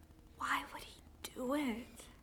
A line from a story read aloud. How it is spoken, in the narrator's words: whispers